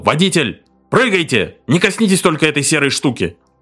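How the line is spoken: Shouting. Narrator (Russian): Затем он закричал

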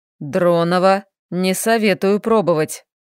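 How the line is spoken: Threatening growl. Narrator (Russian): прорычал, и в его голосе сквозила неприкрытая угроза

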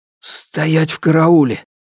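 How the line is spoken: Hoarse. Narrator (Russian): хрипло ответил Алексей

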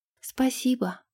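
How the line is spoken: Mumbling. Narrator (Russian): пробормотала она

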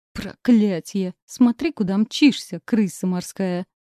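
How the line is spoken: Pained groan. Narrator (Russian): Простонала я, пытаясь понять, сломала ли себе что-нибудь

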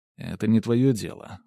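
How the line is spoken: Cold. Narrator (Russian): холодно ответил я

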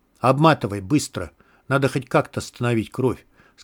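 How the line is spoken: Plain. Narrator (Russian): сказал Клин

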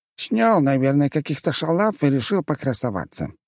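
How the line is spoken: Snorting. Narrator (Russian): хмыкнула ее подруга

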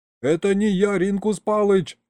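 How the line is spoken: Hasty yell. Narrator (Russian): завопил я поспешно

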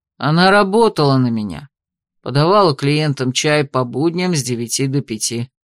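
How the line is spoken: Calm. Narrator (Russian): спокойно ответил Уоллес

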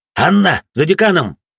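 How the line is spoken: Barked shout. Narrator (Russian): рявкнул я

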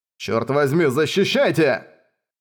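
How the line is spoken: Tense shout. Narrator (Russian): напрягся и крикнул

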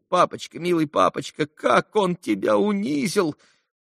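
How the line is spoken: Sobbing. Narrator (Russian): Зарыдал тот

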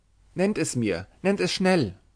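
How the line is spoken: Trembling, urgent cry. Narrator (German): rief Harriet zitternd

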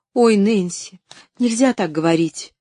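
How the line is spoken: Frightened exclamation. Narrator (Russian): испуганно воскликнула Поллианна

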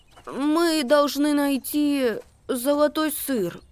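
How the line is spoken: Stammering. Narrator (Russian): проговорил, запинаясь, Макси

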